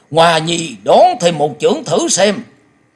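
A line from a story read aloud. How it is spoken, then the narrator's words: Eager loud shout, old man. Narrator (Vietnamese): lòng háo thắng của thiên âm quái tẩu chợt bùng dậy, lão hét to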